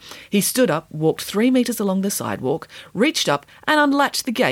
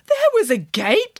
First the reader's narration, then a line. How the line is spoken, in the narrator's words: gasped Nanny Piggins